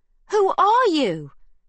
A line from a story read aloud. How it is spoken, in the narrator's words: shouts Magda as the noise of girls crying, men shouting, and guns firing intensifies